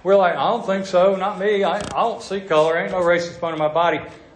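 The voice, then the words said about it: Southern American accent. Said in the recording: “my southern accent plays that better”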